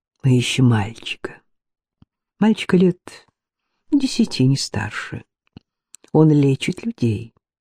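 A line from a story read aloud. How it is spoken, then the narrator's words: Said softly. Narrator (Russian): Гурин мягко произнес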